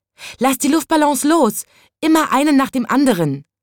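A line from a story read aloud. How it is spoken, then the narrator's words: Called out. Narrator (German): rief es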